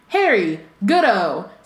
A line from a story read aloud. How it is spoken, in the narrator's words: said Bagman happily